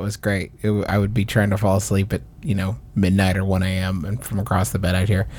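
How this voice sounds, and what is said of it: Usual voice. Nothing is said of it.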